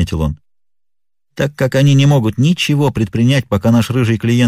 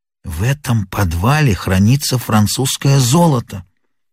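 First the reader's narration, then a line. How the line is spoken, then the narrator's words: Whisper. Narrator (Russian): шепнул мне Мериветер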